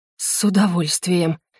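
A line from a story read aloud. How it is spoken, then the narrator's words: Breathless exhale. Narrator (Russian): выдохнула я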